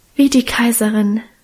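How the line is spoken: Sentimental sigh. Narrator (German): seufzte Minchen gefühlvoll

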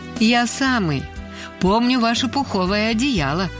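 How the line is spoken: Laughing. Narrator (Russian): засмеялся

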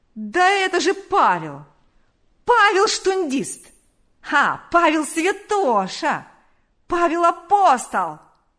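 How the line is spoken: Yelling. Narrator (Russian): вопил он

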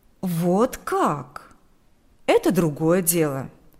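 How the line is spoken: Plain. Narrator (Russian): сказал адвокат Краус

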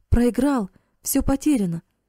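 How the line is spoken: Impatient exclamation. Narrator (Russian): воскликнул Карл, едва не топая от нетерпения

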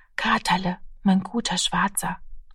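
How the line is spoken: Child whispering. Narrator (German): flüsterte das Kind

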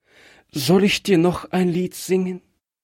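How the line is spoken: Trembling voice. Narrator (German): fragte es mit bebender Stimme

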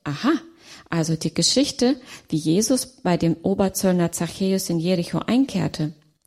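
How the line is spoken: Calm reply. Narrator (German): erwiderte ruhig

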